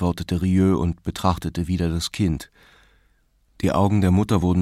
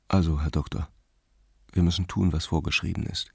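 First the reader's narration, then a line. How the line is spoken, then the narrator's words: Quiet. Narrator (German): sagte er leise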